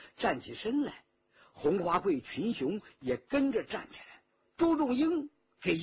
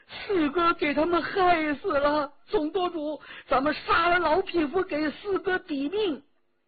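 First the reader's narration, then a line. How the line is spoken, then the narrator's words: Choked, sobbing cry. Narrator (Chinese): 骆宾哽咽着叫道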